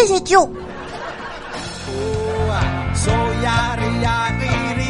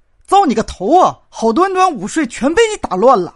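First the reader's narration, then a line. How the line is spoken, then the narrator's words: Angry. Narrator (Chinese): 我心里面非常愤怒，说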